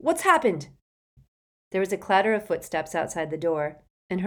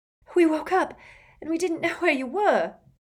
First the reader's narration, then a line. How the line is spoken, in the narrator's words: she said breathlessly